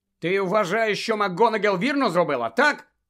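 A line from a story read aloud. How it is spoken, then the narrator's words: Angry bark. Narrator (Ukrainian): сердито гаркнув Гаррі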